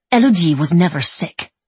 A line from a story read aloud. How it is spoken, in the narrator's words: she says fiercely